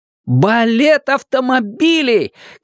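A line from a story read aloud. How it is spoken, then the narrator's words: Shout. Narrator (Russian): крикнул он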